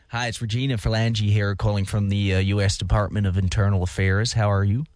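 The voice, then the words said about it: Put-on American accent. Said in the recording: “You've got to do it in an American accent as well.”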